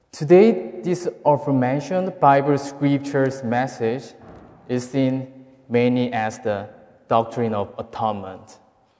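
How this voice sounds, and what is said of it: Noticeable non-native accent. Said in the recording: “my accent is a little bit hard to understand”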